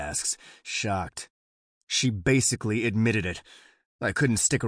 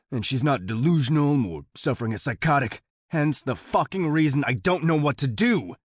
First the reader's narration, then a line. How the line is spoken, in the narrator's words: I growl